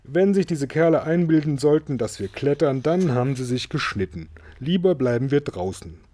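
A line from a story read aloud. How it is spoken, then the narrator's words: Called out. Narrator (German): rief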